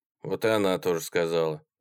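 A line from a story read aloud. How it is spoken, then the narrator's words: Gloomy. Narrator (Russian): мрачно ответил Сушкин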